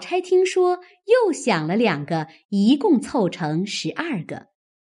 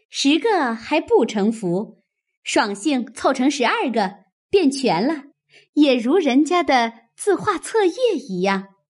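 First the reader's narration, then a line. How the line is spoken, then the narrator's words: Laughing. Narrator (Chinese): 湘云又笑道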